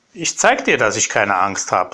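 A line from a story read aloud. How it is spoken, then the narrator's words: Called out. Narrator (German): rief er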